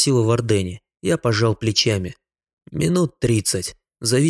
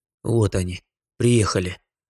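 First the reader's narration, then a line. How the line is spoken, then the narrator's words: Tense muttering. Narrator (Russian): пробормотал я, чувствуя, как по телу пошли знакомые импульсы нейрохимической реакции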